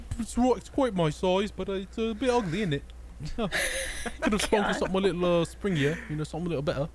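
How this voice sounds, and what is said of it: Put-on British accent. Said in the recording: “with a fucking British accent”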